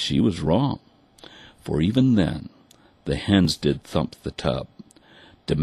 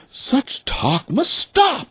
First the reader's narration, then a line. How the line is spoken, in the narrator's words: the mother cried